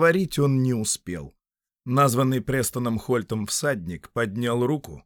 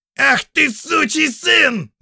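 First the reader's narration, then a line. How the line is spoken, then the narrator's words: Horseman's furious yell. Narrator (Russian): заорал один из всадников Карлетона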